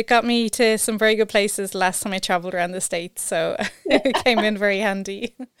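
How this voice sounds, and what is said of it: Irish accent. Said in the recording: “It's the Irish accent.”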